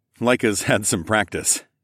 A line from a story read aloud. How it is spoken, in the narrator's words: I chuckled